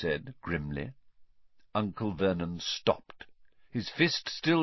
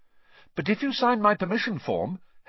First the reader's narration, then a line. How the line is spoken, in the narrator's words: Harry went on quickly